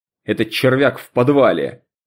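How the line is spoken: Angry, accusing. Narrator (Russian): злобно сообщила она, словно я был виновником всех ее несчастий

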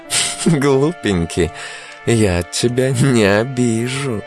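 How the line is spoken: Laughing. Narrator (Russian): рассмеялась Настена

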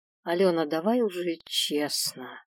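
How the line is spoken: Sighing. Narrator (Russian): вздохнула я

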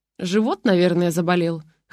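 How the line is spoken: Snorting, wry. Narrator (Russian): хмыкнул Крапивин

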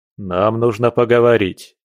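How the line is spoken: Stern. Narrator (Russian): строго сказал он

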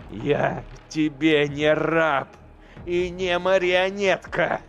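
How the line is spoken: Growled. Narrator (Russian): зарычал Эйдолан

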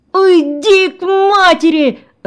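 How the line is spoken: Young man screaming frantically. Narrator (Russian): заорал истошно парень

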